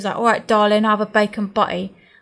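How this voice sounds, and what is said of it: Put-on Portsmouth accent. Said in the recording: “he had a Portsmouth accent”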